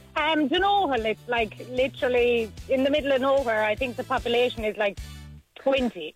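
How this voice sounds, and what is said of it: Strong Tipperary Irish accent, hint of Cork. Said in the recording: “where are you from with that twang? ... my twang is very bad, but I'm actually from Tipperary. ... I'm a bit of Cork thrown in there ... The tip twang is very, very obvious”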